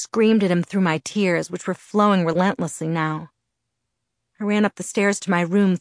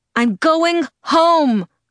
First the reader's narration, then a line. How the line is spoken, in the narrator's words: I shouted, my voice breaking in the perfect spot